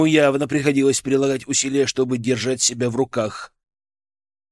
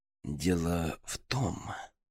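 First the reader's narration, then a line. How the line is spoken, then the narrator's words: Through gritted teeth. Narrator (Russian): процедил Гроздин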